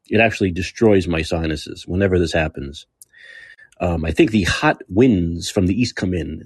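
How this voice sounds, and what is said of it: Slightly hoarse, congested voice. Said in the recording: “it kills my sinuses. You might be able to hear it in my voice ... I have a little bit of a hoarse throat and a little bit of a congestion”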